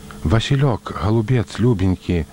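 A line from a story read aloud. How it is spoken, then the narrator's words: Halting whisper. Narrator (Belarusian): шаптала яна, трудна вымаўляючы словы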